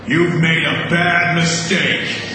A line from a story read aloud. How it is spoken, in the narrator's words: he boomed